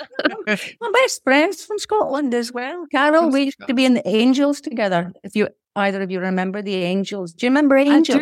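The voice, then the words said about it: Convincing put-on Scottish accent. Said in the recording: “that is a seriously good Scottish accent ... Do you think that accent is very good?”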